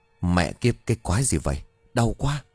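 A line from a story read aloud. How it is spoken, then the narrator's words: Pained cursing mutter. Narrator (Vietnamese): hắn lúc này nhăn mặt chửi vì đập cả mặt xuống đất xịt cả máu mũi rồi lẩm bẩm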